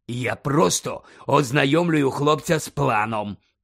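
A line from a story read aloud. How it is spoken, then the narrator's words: Growl. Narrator (Ukrainian): прогарчав Муді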